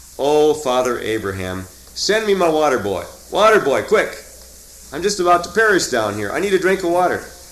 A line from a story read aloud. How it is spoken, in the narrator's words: shouts out